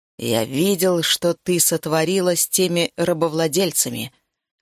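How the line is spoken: Growled. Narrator (Russian): прорычал

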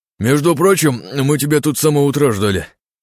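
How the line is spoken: Mumbling with full mouth. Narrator (Russian): набивая рот едой, пробурчал Илья Синицын

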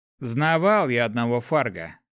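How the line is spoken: Snorting. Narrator (Russian): хмыкнул паладин

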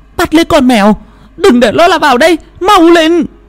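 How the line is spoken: Shouting. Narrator (Vietnamese): Bà Phi hét lên

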